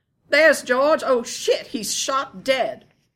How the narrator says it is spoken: shout

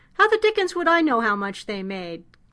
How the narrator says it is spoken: Knapp asked in an irritable voice

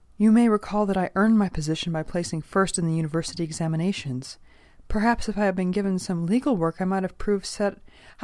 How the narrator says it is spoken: pleaded

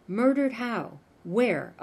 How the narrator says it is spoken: asked

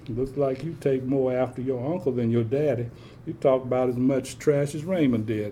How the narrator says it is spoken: Aunt Corrine chuckled

